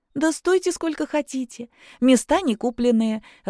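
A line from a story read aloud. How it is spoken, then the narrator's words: Laughing. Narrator (Russian): рассмеялась Аннет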